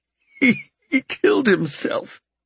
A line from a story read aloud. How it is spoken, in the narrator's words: Albert sobbed